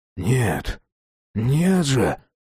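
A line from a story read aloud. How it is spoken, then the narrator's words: Whispering. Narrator (Russian): прошептал Джек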